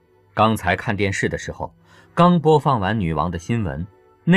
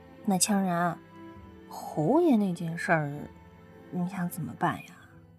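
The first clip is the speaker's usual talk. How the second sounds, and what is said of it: Quiet muttered line. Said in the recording (Chinese): “小声地嘀咕了一句”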